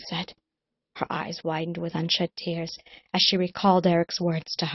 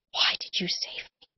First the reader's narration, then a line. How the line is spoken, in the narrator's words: breathed